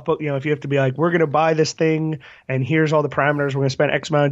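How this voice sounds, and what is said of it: Hoarse, worn-out voice. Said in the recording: “You can you can tell uh, by both of our voices that we're uh, we're a little hoarse.”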